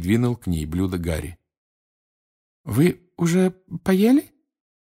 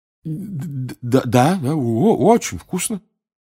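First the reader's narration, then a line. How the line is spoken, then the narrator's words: Stammering. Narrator (Russian): заикаясь, проговорил Рон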